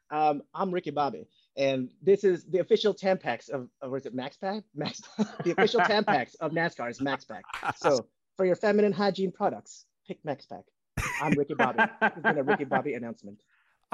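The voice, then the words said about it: Put-on Southern US accent. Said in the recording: “give us your best Ricky Bobby southern accent”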